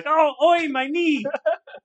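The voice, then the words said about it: Put-on British accent. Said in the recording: “That was my British accent.”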